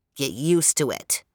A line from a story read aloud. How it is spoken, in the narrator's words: sneered an old man